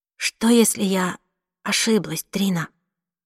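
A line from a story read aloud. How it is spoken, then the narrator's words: Very quiet question. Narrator (Russian): спросила она так тихо, что расслышала только я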